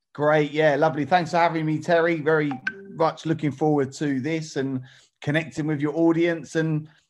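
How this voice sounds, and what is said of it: Essex English accent. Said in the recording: “a property investor and developer from Essex. You might be able to tell from his accent.”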